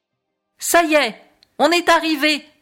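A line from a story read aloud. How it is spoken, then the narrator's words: Exclaimed. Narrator (French): s'écrie Ouistiti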